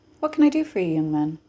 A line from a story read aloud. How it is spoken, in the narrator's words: He said in the polite voice he reserved for potential customers